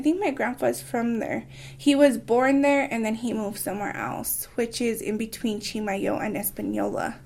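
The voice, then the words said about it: Local regional accent. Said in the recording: “you do have an accent, a local accent.”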